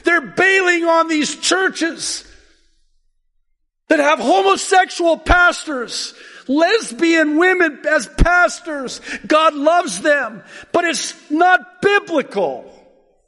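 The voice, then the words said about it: Excited yelling. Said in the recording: “sorry I'm yelling. I'm excited.”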